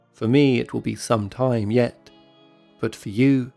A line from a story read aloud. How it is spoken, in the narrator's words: she says